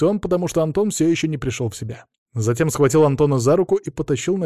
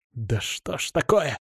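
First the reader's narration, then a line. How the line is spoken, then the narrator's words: Growl. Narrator (Russian): прорычал Артур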